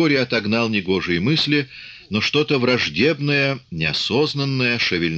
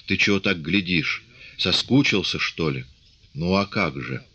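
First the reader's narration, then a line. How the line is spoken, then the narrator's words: Embarrassed whisper. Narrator (Russian): Наталья вспыхнула под его внимательным взглядом, осилив смущение, шепнула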